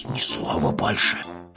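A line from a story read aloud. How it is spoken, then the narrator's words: Hissing. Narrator (Russian): прошипел Пэтсон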